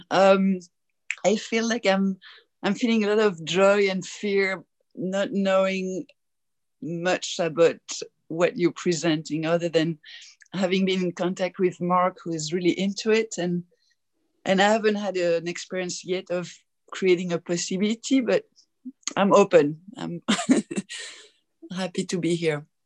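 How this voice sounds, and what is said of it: French accent. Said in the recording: “You sound with a French accent.”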